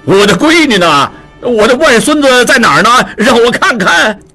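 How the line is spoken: Joyful excited shouting. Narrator (Chinese): 陆大可喜冲冲地嚷道

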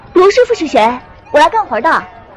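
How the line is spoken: Shouting. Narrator (Chinese): 他就嚷起来

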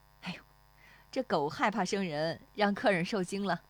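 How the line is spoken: Laughing. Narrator (Chinese): 那妇女…对石丽华笑

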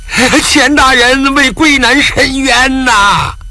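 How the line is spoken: Hoarse alarmed shout. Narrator (Chinese): 钱奎南神色大变，嘶声呐喊

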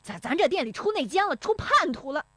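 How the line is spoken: Flustered, furious shouting. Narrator (Chinese): 石有福……气急败坏的嚷

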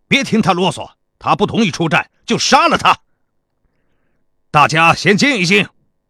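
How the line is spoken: Soldier's loud shout. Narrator (Chinese): 另一个士兵高声喊道

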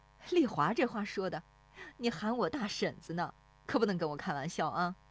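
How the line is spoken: Laughing along. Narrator (Chinese): 那妇女跟着笑

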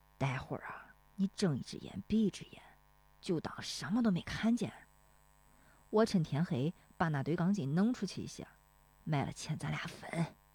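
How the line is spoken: Stern, hushed voice. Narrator (Chinese): 大棒槌不笑了，绷着脸，压低声音说

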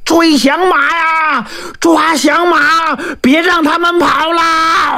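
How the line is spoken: Shout. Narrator (Chinese): 后面有人喊

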